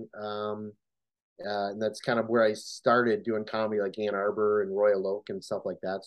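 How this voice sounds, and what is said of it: Midwestern American accent. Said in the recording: “you have a similar accent than one of my neighbors, friend of mine, who's from Wisconsin ... it's that whole Midwest, don't you know”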